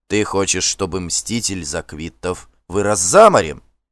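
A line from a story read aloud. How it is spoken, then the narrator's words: Indignant exclamation. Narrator (Russian): С негодованием воскликнул Горм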